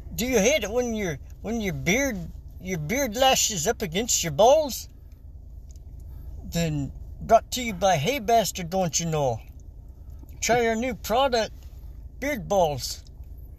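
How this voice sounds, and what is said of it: Put-on Minnesota accent. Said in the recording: “you have to do it in a Minnesota accent. Minnesota.”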